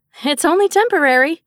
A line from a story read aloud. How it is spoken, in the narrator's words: Summer insisted brightly